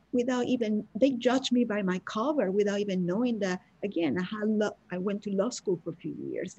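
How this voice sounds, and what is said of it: Non-native English accent. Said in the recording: “by my accent ... I don't speak English perfectly, or simply because English is not my mother tongue”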